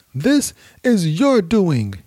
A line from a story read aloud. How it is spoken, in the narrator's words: yelled at him